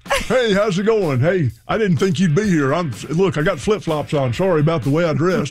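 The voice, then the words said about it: Peyton Manning impression. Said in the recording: “your Peyton Manning voice ... do an impression”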